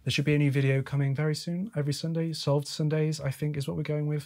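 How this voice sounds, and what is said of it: Hoarse, rough, sick-sounding voice. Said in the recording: “My voice might seem a little hoarse and a little rough. I might sound a little ill. ... a common cold which has been affecting my sinuses”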